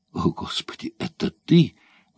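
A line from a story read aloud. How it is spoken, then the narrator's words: Choked exclamation. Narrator (Russian): воскликнул сдавленным голосом корсар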